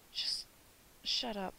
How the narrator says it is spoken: pleaded quietly

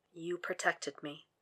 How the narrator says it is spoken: Will says softly

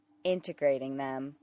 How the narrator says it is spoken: Clark said flatly

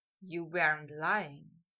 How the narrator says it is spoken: Malfoy whispered

